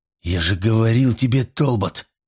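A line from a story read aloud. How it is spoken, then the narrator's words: Hissing. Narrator (Russian): прошипел он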